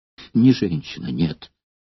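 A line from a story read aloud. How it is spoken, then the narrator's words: Sad. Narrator (Russian): ответил гладиатор, печально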